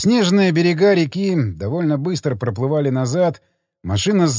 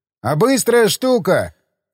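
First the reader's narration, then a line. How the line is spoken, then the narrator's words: Shout. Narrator (Russian): крикнул я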